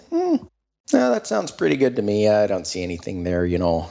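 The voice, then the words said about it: Put-on Minnesota accent. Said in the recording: “I go to the Minnesota accent there ... that was a very particular style choice”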